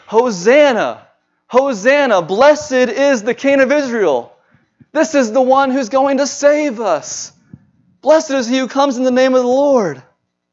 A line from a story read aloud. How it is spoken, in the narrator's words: the people, throngs of people are shouting